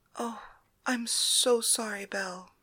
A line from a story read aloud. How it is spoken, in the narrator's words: Polyxena whispered